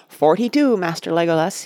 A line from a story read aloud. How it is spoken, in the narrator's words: cried